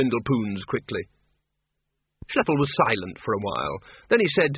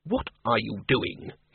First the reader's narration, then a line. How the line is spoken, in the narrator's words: hissed Ridcully